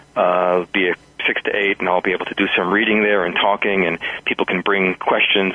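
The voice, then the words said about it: New York accent. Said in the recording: “New York, which is my hometown. Some people will hear that in my pace and style and accent”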